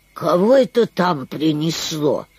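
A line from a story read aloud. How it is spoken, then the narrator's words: Grumbling. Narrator (Russian): проворчала цапля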